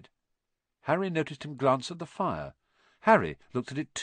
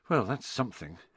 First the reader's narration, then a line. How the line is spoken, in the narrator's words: Harry muttered to the others